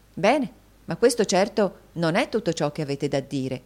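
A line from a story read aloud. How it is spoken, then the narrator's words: Exclaimed. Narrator (Italian): esclamò la signorina Price all'interruzione di Nicola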